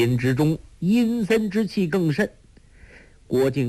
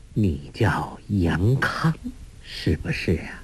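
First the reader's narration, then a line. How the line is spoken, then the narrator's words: Woman speaking slowly. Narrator (Chinese): 那女人缓缓地说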